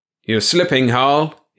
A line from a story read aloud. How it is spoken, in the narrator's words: shouted